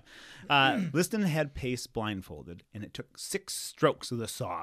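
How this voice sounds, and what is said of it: Usual voice. Nothing is said of it.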